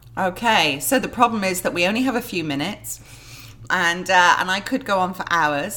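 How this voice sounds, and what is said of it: English accent. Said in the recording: “I detect from your accent that you're not from Knoxville, Tennessee ... originally from England ... from Manchester in the north of England”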